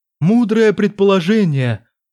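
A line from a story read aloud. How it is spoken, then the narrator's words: Exclaimed. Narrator (Russian): воскликнул Джарис Хан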